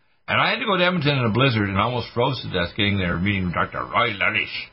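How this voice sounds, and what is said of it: Usual voice. Nothing is said of it.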